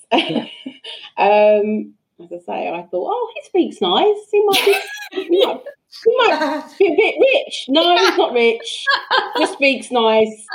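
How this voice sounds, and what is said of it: Working-class British accent. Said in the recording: “I consider myself working class background, you might guess from my accent”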